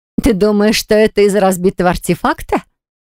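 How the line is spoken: Asked after hearty laughter. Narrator (Russian): Вдоволь насмеявшись так, что пришлось убирать слезы в уголках глаз, спросила Диали

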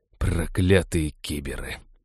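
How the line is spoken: Muttered. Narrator (Russian): пробормотал Хэл

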